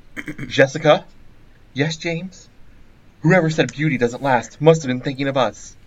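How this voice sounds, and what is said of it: Acts out cartoon character voices. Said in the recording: “I'm going to do the voices.”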